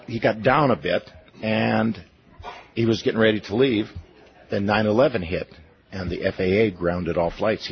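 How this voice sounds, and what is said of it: Strained voice, losing his voice. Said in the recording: “I'm losing my voice here”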